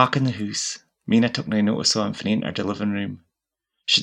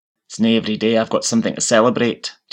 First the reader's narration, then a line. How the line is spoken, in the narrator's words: Jackie growled